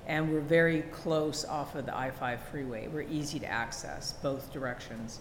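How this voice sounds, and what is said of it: Canadian accent. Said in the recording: “So I'm Canadian. I don't know if you can hear that in my accent. ... I heard it ... My version of my Canadian accent.”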